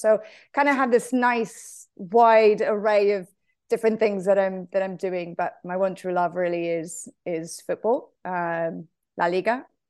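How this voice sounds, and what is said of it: Not quite an American accent. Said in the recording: “that's not exactly an American accent”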